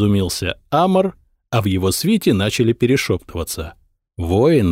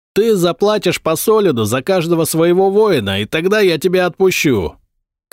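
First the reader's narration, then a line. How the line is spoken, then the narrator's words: Shouted from a wall. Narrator (Russian): крикнул воин со стены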